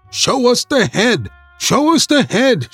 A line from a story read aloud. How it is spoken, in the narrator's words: shouted the people